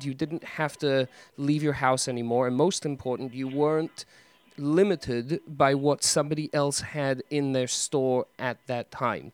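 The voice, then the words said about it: English accent. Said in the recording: “you have that intelligent English accent going”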